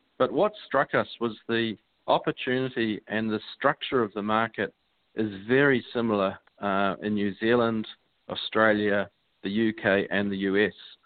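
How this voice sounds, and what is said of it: Strong New Zealand accent. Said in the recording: “I detected a bit of an accent there ... I am from New Zealand, so you're listening to a pretty healthy Kiwi accent”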